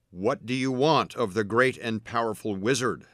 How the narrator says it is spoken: the wizard bellowed

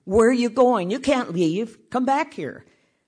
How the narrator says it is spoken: yelled

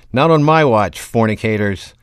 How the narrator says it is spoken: yelled

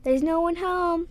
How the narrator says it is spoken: the boy called out

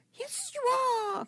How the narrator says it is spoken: cried Toad over the edge of his craft to his imaginary admirers

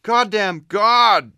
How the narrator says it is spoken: She moaned

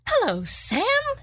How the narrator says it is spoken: she said brightly, aloud

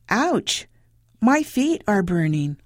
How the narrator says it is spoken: exclaimed

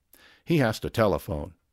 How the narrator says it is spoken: said Mr

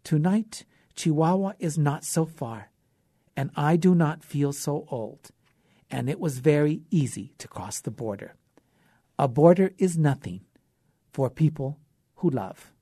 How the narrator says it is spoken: he said quietly

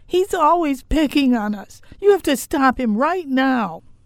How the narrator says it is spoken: our younger daughter tore out of the family room and into the kitchen, hollering

